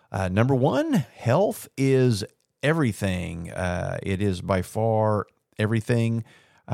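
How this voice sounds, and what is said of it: Rough, rumbly tired voice. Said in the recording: “my voice sounds a little uh, sketchy... It is 11:30 at night... it may be a little rumbly”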